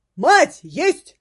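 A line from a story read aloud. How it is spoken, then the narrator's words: Guard shouting. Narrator (Russian): прокричал гвардеец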